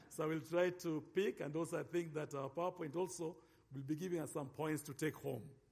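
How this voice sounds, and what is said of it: African-accented English. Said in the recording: “my accent ... I'm still African a bit”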